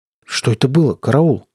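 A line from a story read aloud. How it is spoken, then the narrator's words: Trembling question. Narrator (Russian): спросил я вздрагивающим голосом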